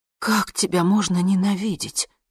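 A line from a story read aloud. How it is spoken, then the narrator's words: Breathy. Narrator (Russian): выдохнула я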